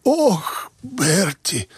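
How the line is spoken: Choked voice. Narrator (Russian): сказал он каким-то придушенным голосом

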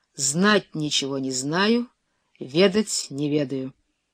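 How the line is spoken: Muffled reply. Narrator (Russian): князь глухо ответил

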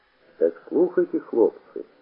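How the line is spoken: Hoarse bandit leader. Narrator (Russian): хрипло сказал кто-то, видимо, атаман бандитов

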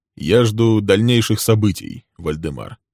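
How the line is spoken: Calm. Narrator (Russian): пояснил Лесли спокойно

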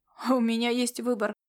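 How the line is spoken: Grumbling. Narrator (Russian): проворчал Звездный Кот

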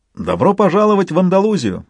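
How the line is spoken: Joyful exclamation. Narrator (Russian): радостно воскликнул Мигель

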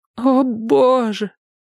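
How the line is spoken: Groaning. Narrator (Russian): простонала она

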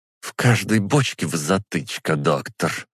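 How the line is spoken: Through gritted teeth. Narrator (Russian): сквозь зубы произнесла она

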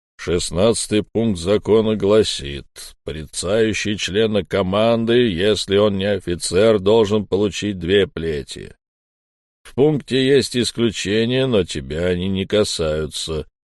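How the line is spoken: Booming dead man's voice. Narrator (Russian): прогудел мертвец

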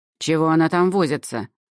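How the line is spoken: Angry question. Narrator (Russian): зло спросила Эльма

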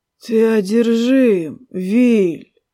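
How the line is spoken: Breathless exhale. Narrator (Russian): Выдохнул король

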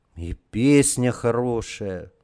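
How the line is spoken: Sighing. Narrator (Russian): вздохнул Борька

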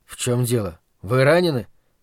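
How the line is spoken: Quiet question. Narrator (Russian): тихо спросил

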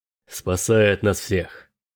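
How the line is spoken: Grumbling. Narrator (Russian): проворчал Дрейк

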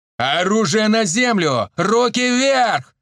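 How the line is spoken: Bellowing bass voice. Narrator (Russian): заорал Евген басом, который специально отрабатывал еще в спецназе

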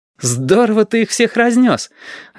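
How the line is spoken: Joyful recollection. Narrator (Russian): радостно вспомнил Стасик

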